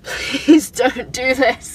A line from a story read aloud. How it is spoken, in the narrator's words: I sobbed